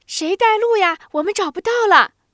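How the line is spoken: Children shouting. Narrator (Chinese): 跑在最前面的三个孩子在喊

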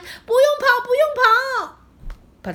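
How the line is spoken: Urgent shout. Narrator (Chinese): 雷迪赶紧大喊

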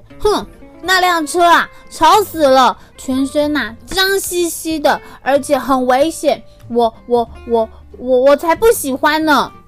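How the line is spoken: Loud, uneasy. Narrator (Chinese): 红色的小拖拉机，心里感觉怪怪的，于是他就大声的说

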